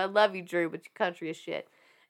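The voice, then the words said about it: Country accent with a twang. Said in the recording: “She said with a twang. ... As I say with my own country accent.”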